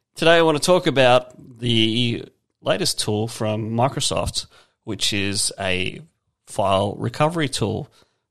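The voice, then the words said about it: Hoarse, strained voice. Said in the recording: “I'm already losing my voice.”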